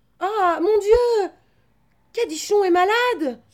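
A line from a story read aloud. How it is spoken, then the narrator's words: Child exclaiming. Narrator (French): s'écria le petit Jacques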